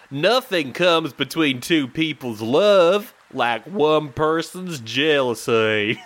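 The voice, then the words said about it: Deliberately poor Southern US accent. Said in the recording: “This is a terrible accent. ... I apologize to any southern listeners ... the accent a thumbs up”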